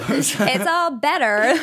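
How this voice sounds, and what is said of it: Bad put-on American accent. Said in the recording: “That was a really bad American accent.”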